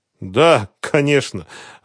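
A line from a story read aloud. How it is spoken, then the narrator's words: Laughing. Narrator (Russian): рассмеялась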